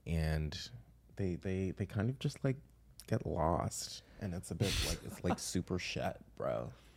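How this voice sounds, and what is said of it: Put-on American accent. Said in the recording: “You're really good at American accent.”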